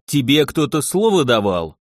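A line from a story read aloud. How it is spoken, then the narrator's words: Snapping retort. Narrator (Russian): огрызнулся он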